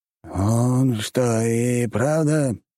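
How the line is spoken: Drawl. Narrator (Russian): протянул Виконт

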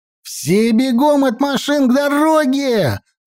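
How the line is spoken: Yelling. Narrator (Russian): заорал я

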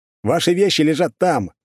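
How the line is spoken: Shout. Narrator (Russian): крикнул я

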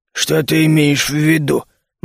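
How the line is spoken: Gloomy question. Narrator (Russian): мрачно спросил Нарг

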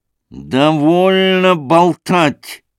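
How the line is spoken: Menacing, mockery turning to anger. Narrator (Russian): сказал он грозно, переходя от насмешливости к явному гневу

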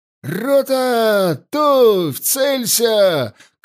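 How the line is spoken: Shouted with all strength. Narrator (Russian): крикнул, что из сил Егоров

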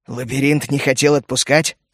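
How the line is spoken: Wry snort. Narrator (Russian): хмыкнул он

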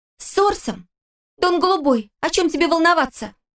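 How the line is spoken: Shouted out. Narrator (Russian): выкрикнула Ирнелли

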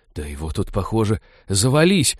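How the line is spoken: Reverent whisper. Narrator (Russian): благоговейно прошептала Молли

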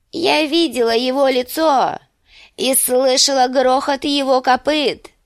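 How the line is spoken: Thin trembling proclamation. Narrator (Russian): провозгласила тонким дрожащим голосом

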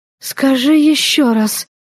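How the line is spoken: Ecstatic moaning breath. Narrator (Russian): шалея от счастья, простонала, выдохнула я

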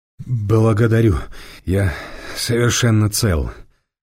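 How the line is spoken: Through gritted teeth. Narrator (Russian): Сквозь зубы ответил добрым самарянам Эраст Петрович

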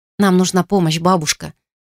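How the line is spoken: Quick. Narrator (Russian): быстро произнесла я

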